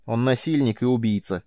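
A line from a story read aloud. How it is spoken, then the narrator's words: Cold reply. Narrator (Russian): холодно ответила она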